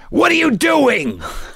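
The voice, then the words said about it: Angry raccoon cartoon voice. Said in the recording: “my angry raccoon voice ... It's a challenging voice”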